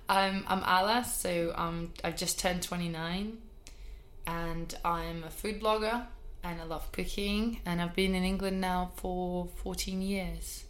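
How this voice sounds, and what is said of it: Non-London foreign accent. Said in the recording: “people can listen and hear from your accent that you're not from London”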